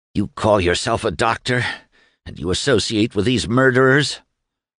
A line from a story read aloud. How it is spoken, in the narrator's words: Doremus raised his head from the table to gasp